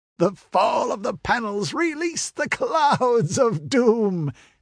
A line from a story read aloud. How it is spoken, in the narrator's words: said the Red Priest with a wild laugh